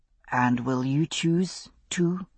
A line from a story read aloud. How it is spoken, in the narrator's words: he asked softly